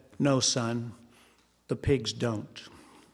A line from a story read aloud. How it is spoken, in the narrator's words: The old farmer calmly said